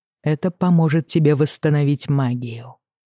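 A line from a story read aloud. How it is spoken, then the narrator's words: Calm explanation. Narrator (Russian): спокойно поясняет Дайер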